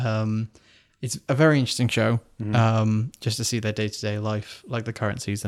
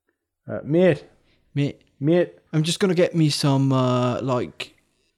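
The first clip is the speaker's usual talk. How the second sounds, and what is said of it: Weak attempt at Geordie accent. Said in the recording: “Can I do a Geordie accent? ... I can't, I can't do it then.”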